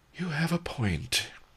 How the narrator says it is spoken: he sighed

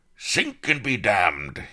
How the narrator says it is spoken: roared

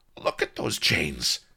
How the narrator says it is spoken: he snarled

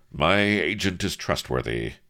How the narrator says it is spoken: he hazarded

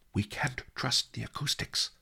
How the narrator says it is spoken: Li Kao whispered in my ear

